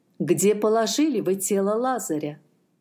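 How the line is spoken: Plain. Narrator (Russian): спросил Иисус

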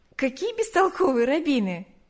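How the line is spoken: Laughing. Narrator (Russian): засмеялась она

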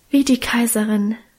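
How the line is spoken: Sighed emotionally. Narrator (German): seufzte Minchen gefühlvoll

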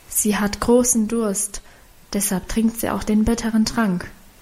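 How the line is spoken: Whispered explanation. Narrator (German): erklärte flüsternd

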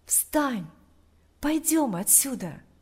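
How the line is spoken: Whispered in ear. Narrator (Russian): Тот же голос прошептал ему на ухо

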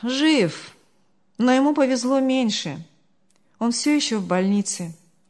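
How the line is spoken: Sighing. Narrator (Russian): вздохнул Артур

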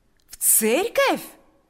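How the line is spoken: Joyful exclamation. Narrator (Russian): воскликнул Павел с таким радостным выражением лица

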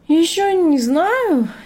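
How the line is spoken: Uncertain reply. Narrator (Russian): неуверенно ответил Артем

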